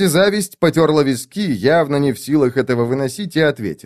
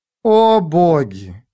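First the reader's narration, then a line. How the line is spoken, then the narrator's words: Sighing. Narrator (Russian): вздохнула леди Зависть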